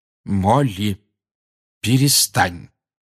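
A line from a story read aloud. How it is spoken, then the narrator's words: Firm voice. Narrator (Russian): твердым голосом сказал Люпин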